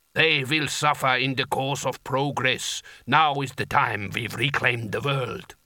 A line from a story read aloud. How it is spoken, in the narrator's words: rumbled the giant